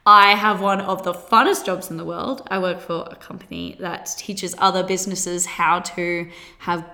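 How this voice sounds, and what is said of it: Australian accent. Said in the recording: “my accent, that is Australia”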